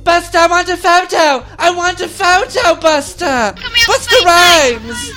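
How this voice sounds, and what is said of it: Exaggerated English girl accent, shouting. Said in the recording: “English girl, that accent is the worst.”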